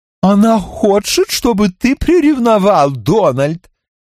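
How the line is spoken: Giggling. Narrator (Russian): хихикнула Зорка

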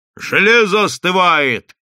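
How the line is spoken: Shout. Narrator (Russian): крикнул кто-то

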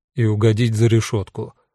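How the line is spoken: Gloomy addition. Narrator (Russian): мрачно добавил Эду

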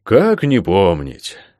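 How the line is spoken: Slight sigh. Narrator (Russian): слегка вздохнул почтенный лорд

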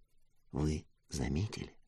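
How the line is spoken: Whispered question. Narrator (Russian): спросил я шепотом

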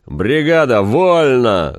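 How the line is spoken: Sudden booming yell. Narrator (Russian): заорал вдруг зев зычным голосом

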